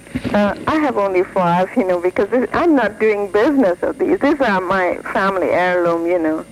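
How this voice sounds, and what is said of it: Speaks with a foreign accent. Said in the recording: “you have an accent”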